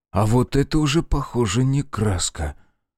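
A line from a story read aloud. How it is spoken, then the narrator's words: Whispered. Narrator (Russian): Прошептал он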